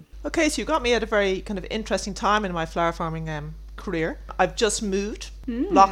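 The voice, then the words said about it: Irish accent. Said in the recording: “Irish accents are my absolute favourite ... oh, I love that brogue”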